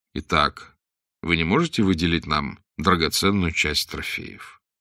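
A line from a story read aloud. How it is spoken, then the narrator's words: Calm. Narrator (Russian): заключил Блад спокойно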